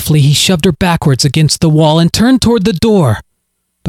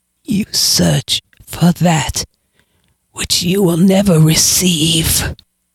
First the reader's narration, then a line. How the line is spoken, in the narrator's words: she hissed with her last breath before dying